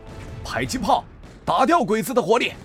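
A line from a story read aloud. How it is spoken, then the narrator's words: Anxious shout. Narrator (Chinese): 张晋心中焦急，于是吼道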